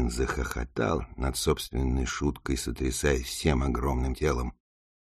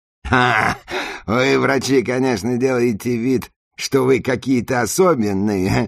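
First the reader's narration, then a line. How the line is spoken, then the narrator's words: Laughing. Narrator (Russian): Засмеялся Юрген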